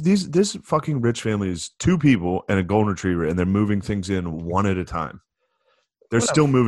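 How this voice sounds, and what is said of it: Usual voice. Nothing is said of it.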